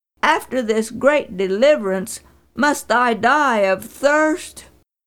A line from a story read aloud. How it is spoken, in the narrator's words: cried